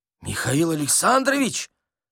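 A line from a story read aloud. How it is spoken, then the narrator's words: Exclaiming accountant. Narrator (Russian): воскликнул прозревший бухгалтер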